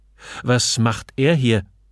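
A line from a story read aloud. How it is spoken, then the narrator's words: Called out. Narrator (German): rief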